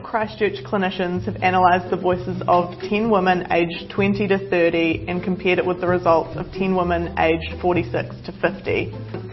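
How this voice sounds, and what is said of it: New Zealand accent. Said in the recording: “she speaks New Zealand ... it's a strange dialect ... Back end Australian ... bad accent ... they would sound like a New Zealander”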